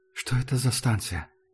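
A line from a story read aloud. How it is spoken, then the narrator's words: Whispered question. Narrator (Russian): шепотом спросил Артем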